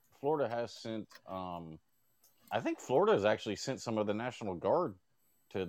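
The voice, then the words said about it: Midwestern-sounding accent, Dakotas cadence. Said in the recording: “I can't figure out your accent. Is it from the Midwest? ... you sound like you have the cadence of like the Dakotas ... He does have that accent.”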